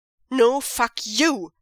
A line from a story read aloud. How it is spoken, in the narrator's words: Zhang Chang snarls, angrily